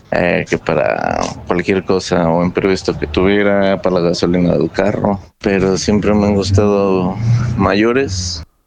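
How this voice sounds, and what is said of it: Creepy old man's voice. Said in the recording (Spanish): “voz de viejo pervertido ... es la voz impresentable, güey, es una voz impresentable”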